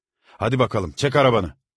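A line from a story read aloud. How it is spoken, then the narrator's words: Shouted at a child. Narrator (Turkish): diye çocuğa bağırdı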